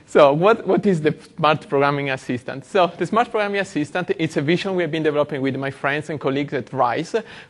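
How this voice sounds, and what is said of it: Italian accent. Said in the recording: “my funny accent ... I'm Italian”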